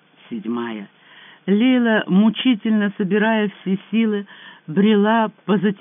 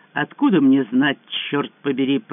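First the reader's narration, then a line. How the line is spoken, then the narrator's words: Grumbling woman. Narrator (Russian): проворчала египтянка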